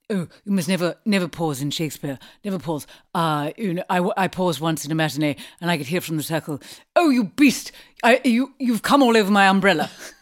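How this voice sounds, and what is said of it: Poor impression of a classical actor. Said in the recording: “Forgive my impression ... That's a rubbish John Gielgud good impression.”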